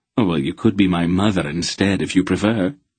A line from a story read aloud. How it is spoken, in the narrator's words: Silk suggested blandly